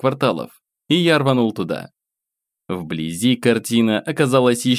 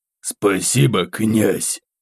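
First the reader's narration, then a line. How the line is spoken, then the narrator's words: Rasping wheeze. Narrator (Russian): Прохрипел один из них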